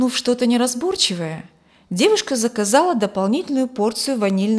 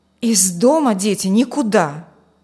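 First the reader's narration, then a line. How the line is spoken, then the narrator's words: Warning. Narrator (Russian): предупредила она детей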